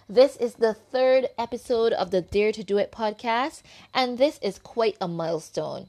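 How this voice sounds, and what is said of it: Barbadian accent. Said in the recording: “the accent you're hearing is that from my own beautiful country island of Barbados”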